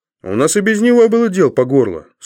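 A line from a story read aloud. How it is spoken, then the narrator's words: Offended voice. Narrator (Russian): сказал полисмен обиженным голосом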